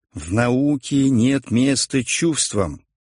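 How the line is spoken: Stern rebuke. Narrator (Russian): строго осадил Иветту проповедник

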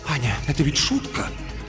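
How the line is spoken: Whisper. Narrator (Russian): он говорит шепотом

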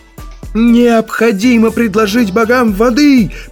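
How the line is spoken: Booming voice. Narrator (Russian): прогремел младший песнопевец

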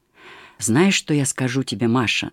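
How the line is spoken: Quiet. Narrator (Russian): начал он тихо

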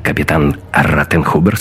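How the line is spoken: Curt, clipped. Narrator (Russian): сказал Гитлер отрывисто

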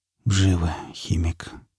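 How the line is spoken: Muttered. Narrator (Russian): пробормотал напарник

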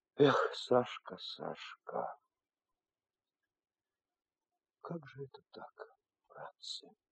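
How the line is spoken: Sad speech. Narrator (Russian): Потапов печально говоря

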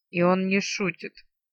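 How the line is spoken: Grumble. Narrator (Russian): проворчала Арсана

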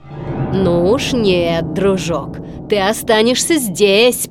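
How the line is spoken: Growl. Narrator (Russian): прорычал Стромболи

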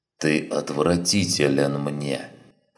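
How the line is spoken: Hissing. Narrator (Russian): прошипел Сарен

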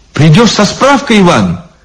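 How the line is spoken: Anxious. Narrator (Russian): взволнованно сказала Лиза

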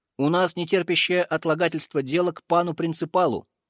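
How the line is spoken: Loud. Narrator (Russian): громко сказал Олег

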